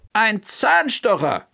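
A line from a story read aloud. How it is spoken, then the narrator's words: Calling out. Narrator (German): rief Bertha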